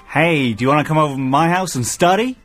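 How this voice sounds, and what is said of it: Decent attempted American accent. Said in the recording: “can you do an American accent? ... That's not bad. That's not bad. ... I would say it was as good as yours”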